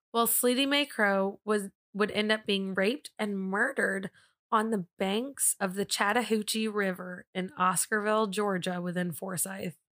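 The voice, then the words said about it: Strong smooth drawling accent. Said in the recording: “Did you hear that accent that came real strong in that whole sentence? ... There's a little smooth molasses in there.”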